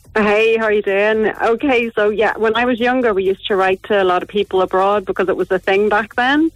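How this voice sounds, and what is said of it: Northern Irish accent. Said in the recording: “it's only better with even Northern Irish accent, of course”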